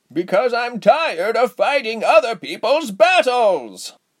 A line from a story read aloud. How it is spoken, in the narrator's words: Giselle roared, spitting harshly every few words